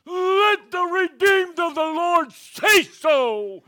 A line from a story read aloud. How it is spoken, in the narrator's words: he leaped to his feet, and with this gravelly voice, he yelled